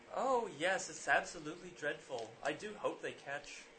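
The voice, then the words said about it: Put-on English accent. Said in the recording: “I'm starting to talk with an English accent. ... With a British ... Accent?”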